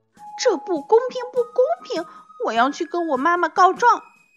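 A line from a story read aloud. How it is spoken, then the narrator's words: Angry muttering. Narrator (Chinese): Laura 非常愤怒，他再次跟豆豆嘟囔说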